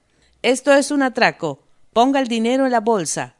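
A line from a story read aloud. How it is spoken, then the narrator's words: Shouted. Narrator (Spanish): gritó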